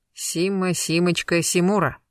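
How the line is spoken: Smirking snort. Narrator (Russian): хмыкнул Гектор

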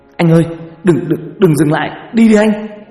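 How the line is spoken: Shrill hiss. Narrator (Vietnamese): Toàn rít lên

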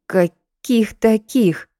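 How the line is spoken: Hoarse wheeze. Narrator (Russian): просипела Лида

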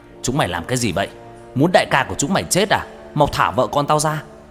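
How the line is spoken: Hasty shout. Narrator (Vietnamese): Ngọc Long vội quát lên

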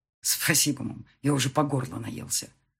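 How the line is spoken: Grumbled mutter. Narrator (Russian): буркнул Марат

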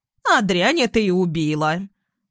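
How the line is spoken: Old woman barking. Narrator (Russian): старуха рявкнув

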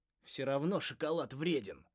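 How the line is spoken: Grumbling. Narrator (Russian): проворчал Кегр

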